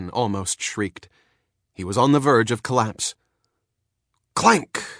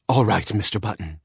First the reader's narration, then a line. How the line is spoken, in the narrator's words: she agreed in a hushed voice